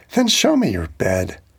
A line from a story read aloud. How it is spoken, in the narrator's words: She laughed and she said